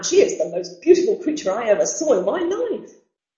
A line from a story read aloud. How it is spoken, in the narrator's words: cried the man